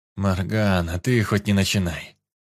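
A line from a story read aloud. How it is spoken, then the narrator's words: Groaned. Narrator (Russian): простонал я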